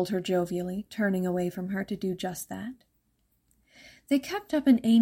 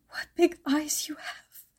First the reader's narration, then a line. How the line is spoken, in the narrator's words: she remarked in a shaky whisper, heart pounding out of her chest